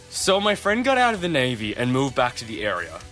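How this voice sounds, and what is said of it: Put-on American accent. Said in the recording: “I'll do an American accent”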